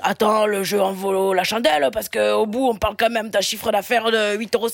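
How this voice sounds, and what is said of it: Improvised put-on accent. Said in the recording (French): “Qu'est-ce que c'est l'accent là? ... c'est ce qui est venu là, c'était un jeu improvisé”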